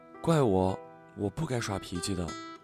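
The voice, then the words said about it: Speaking softly, quiet voice. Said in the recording (Chinese): “小声说”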